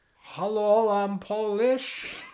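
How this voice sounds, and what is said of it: Put-on Polish accent. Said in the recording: “Could do your Polish accent for me”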